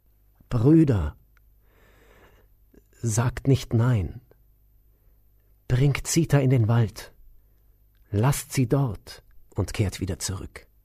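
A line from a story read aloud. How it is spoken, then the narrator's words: Said with sighs. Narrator (German): Unter Seufzen sagte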